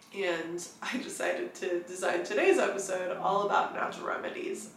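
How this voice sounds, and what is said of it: Voice altered by a cold. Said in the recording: “I sound very different right now because I am actually just recovering from a pretty nasty cold”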